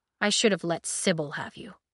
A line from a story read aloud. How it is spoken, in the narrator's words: he muttered